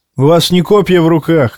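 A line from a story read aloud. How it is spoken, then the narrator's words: Shout. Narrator (Russian): крикнул он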